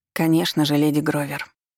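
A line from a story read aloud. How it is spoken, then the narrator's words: Indifferent voice. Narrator (Russian): отозвалась безразличным голосом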